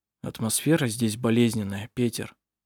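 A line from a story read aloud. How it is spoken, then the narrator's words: Quiet. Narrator (Russian): тихо сказал Хейке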